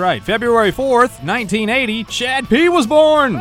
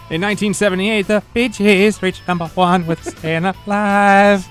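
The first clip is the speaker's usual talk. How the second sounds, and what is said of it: Imitates a singer's voice. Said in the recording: “You like my Barry Gibb impression? ... It sounded like him. It really did.”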